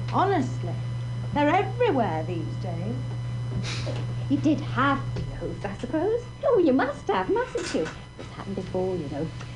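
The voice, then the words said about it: Near-Cockney English accent. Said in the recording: “Listen to her great accent. It's almost Cockney.”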